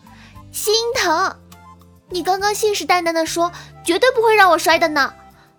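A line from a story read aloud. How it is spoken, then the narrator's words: Loud. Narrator (Chinese): 刘雨安大声的说道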